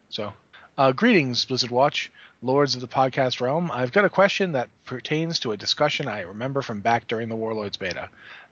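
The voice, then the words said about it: New England accent. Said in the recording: “I have New England accent, and I would say that Ro”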